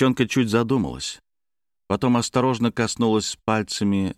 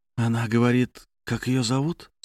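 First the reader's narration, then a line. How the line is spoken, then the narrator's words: Whisper. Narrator (Russian): спросил Дмитрий шепотом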